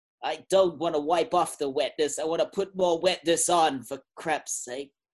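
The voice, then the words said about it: Old Jewish stereotype voice. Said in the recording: “Why do you sound like an old Jewish stereotype?”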